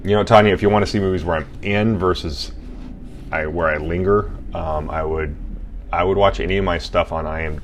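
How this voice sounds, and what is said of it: Deep voice, slightly congested. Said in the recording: “My deep voice, I think, is about accurate, but it's also slightly enhanced because of my cold.”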